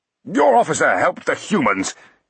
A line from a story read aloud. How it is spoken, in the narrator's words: he blurted, mustering as much indignation as possible